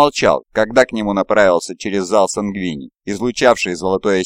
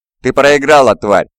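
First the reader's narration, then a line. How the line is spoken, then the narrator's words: Loud. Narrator (Russian): громко произнес он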